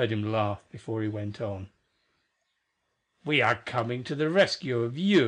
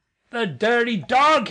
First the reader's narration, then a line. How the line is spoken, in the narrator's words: exclaimed